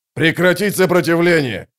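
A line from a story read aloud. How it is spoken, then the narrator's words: Shout. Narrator (Russian): закричал Халлик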